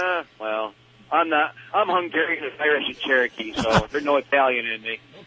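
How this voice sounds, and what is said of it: Usual voice. Nothing is said of it.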